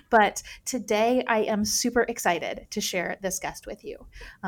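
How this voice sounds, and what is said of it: Voice slightly off, sounds sick. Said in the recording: “my voice might sound a little bit different from usual. I am recovering from a cold”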